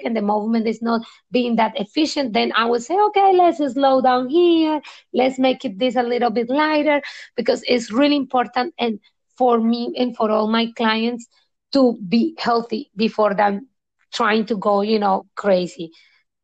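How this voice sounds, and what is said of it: English with a beautiful foreign accent. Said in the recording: “has a beautiful accent”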